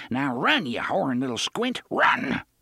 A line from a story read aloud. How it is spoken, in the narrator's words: he growled